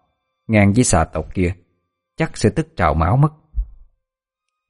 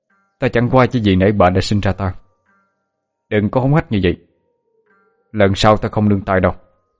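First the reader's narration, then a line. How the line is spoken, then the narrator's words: Cold, harsh, through teeth. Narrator (Vietnamese): Hắn lạnh lùng gằn giọng nói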